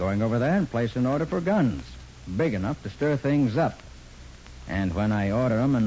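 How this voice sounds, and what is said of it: Usual voice. Nothing is said of it.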